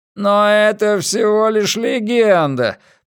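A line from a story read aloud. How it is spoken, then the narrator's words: Groaning. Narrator (Russian): простонал Финли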